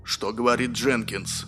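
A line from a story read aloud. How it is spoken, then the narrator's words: Plain. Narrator (Russian): спросил Пимли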